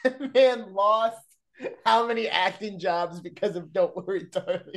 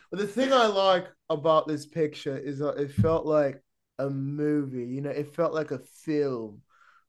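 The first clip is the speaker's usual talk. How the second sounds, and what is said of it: Imitates another person's voice. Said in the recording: “Who are you trying to impersonate there? ... Harry Styles, remember? Do you not remember that interview?”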